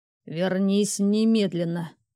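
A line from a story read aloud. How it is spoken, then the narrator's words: Through gritted teeth. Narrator (Russian): процедил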